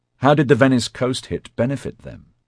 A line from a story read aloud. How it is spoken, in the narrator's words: Rennie asked quickly